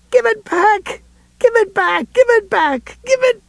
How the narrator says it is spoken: In his hysteria, Atropos might have gone on shrieking

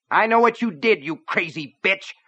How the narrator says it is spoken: a voice spat

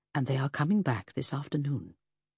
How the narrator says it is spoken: matron confirmed quietly

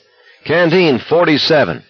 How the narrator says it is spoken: he shouted

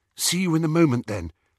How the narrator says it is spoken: said Hermione nervously

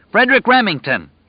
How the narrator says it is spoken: he bellowed at the top of his lungs

